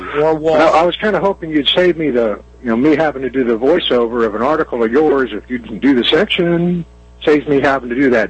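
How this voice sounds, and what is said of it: Texan Southern accent. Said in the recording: “this pretty old redneck down here in Texas ... I think it's a great accent, personally. You know, it's very refreshing to hear.”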